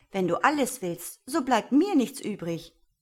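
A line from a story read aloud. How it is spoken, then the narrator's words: Call. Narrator (German): rief Kleinwölfchen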